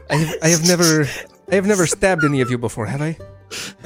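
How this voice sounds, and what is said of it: Put-on accent for a character. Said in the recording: “and an accent.”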